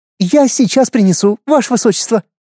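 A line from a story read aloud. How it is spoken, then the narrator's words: Joyful exclamation. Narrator (Russian): Обрадованно воскликнула служанка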